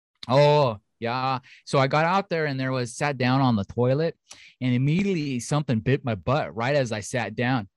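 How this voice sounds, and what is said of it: Put-on North Dakota accent. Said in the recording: “I'm going to give her a country accent ... No, go like North Dakota.”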